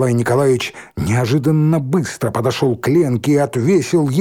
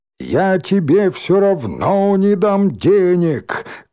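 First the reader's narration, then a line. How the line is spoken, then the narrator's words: Shouting after her. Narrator (Russian): крикнул он ей вслед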